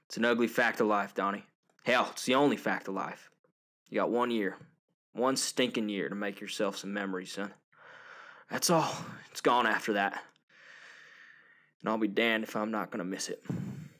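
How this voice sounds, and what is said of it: Put-on Southern US accent. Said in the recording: “I wanted to try to do my best to imitate Tim McGraw's Southern accent there”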